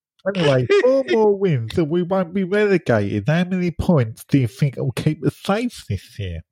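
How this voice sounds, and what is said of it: Sick, unclear voice, accent faded. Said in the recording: “I don't know what you're saying. No one understands. ... I've got COVID ... Why does he lose his accent when he's got COVID?”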